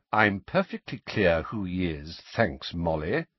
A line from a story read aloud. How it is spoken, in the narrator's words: said Sirius coldly